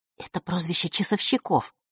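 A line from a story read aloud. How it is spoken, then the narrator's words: Whisper. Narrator (Russian): шепнула ей подруга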